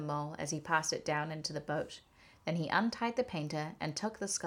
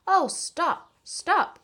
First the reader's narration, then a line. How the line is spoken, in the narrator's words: cried the mole in ecstasies